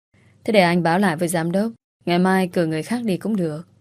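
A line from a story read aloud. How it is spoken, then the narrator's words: Sighing. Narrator (Vietnamese): Duy bỗng thở dài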